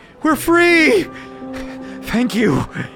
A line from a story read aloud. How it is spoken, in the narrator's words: cries of